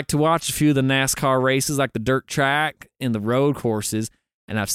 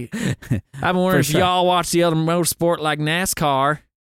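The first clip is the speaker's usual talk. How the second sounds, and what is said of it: Exaggerated redneck Southern accent. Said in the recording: “Said in the most redneck accent you can do. ... I actually kind of hit that pretty.”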